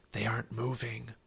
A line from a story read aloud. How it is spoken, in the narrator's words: Jack whispered